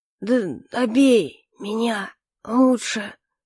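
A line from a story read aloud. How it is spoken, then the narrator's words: Slurred hoarse wheeze. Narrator (Russian): прохрипел генерал, еле ворочая языком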